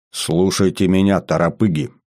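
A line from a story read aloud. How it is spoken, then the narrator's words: Major's stern voice. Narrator (Russian): строго сказал майор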